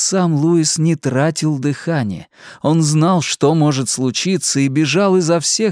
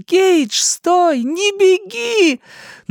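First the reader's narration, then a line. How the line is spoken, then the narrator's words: Shouting again. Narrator (Russian): Рэйчел опять закричала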